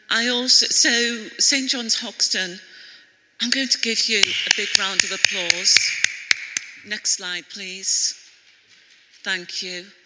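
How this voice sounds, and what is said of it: Scouse (Liverpool) accent. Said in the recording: “a lady from Compassion with a Scouse accent, I was born in Liverpool”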